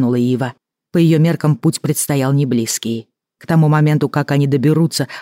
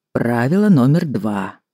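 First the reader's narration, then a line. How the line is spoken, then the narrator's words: Calm godfather. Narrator (Russian): спокойно сказал крестный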